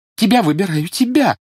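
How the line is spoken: Quick sobbing answer. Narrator (Russian): сразу ответила Жюли и, всхлипывая

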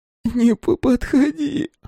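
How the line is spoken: Hoarse rasp. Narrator (Russian): прохрипела Лукерья

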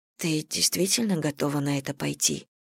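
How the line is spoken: Low voice. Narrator (Russian): вполголоса произнесла Саня

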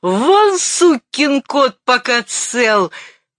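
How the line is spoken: Hysterical shout. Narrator (Russian): Он набрал в легкие воздуху и истерично крикнул

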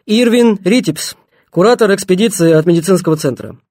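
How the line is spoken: Loud statement. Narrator (Russian): Репин и громко сказал

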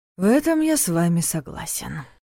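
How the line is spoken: Sighing. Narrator (Russian): вздохнул Дементьев

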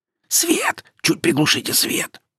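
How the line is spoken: Hoarse wheeze. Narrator (Russian): просипел Максим в шуршащей тишине зала

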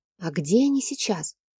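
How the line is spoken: Quiet question. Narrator (Russian): тихо спросила я

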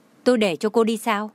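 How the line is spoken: Cold. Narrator (Vietnamese): Trang Hạo Nhiên lạnh lùng nói

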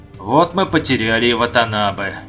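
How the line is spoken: Sad sigh. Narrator (Russian): Вздохнул Дэнна, с грустью

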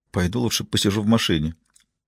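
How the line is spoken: Mumbling woman. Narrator (Russian): пробормотала она

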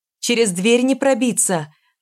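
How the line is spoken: Shout. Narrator (Russian): крикнула Варька

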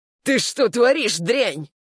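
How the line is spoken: Screaming. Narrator (Russian): вопил он

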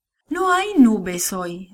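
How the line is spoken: Sad. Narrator (Spanish): dijo tristemente

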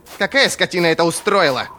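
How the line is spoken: Booming, foreign tongue. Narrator (Russian): прогремел на северном голос ищейки

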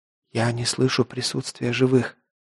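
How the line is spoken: Whisper. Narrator (Russian): прошептала Чуть

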